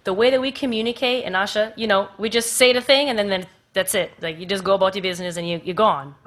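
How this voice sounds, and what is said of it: Jamaican accent slipping into speech. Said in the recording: “Oh, there's the accent. ... I have an American accent, but the delivery is Jamaican.”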